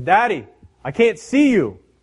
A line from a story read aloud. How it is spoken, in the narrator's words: the little boy hollers down below and says